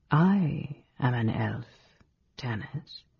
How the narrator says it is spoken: Dalimar said quietly

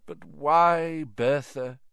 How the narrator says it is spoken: said Dumbledore sadly

